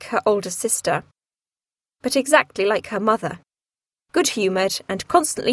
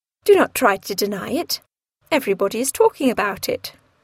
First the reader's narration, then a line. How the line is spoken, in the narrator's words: said Mrs